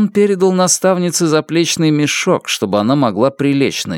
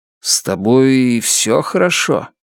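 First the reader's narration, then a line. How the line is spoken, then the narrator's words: Hissing. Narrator (Russian): Она зашипела на него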